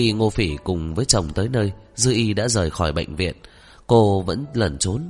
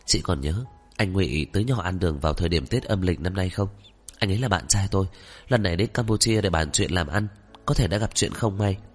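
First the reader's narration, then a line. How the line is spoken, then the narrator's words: Lowered voice. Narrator (Vietnamese): hạ giọng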